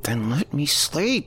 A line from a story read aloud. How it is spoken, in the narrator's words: She groaned